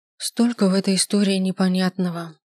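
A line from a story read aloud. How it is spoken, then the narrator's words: Sigh. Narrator (Russian): вздохнула она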